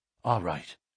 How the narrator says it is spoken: whispered McMurdo

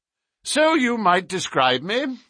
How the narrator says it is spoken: said Holmes cheerfully

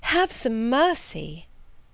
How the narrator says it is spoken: I cried

